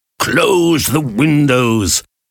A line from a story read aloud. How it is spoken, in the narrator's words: Challenger shouted